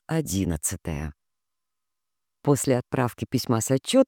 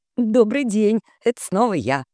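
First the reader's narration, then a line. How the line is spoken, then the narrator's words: Cheerful greeting. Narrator (Russian): бодро поздоровалась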